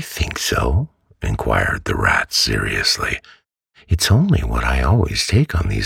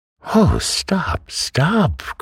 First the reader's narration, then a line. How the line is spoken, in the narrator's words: cried the mole in ecstasies